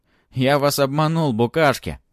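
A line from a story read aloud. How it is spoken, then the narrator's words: Shouting. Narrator (Russian): закричал Матвей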